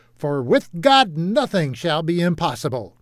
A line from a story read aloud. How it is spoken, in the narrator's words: his voice shouted heavenward